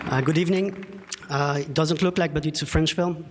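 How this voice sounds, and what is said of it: French accent. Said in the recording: “French producer ... Sorry about the accent.”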